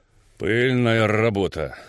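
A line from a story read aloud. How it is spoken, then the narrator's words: Calm. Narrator (Russian): спокойно сказал дядя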